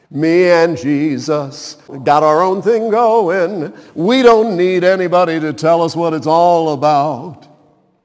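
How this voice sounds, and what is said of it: Imitates another person's singing voice. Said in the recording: “bad Pat Boone impersonation”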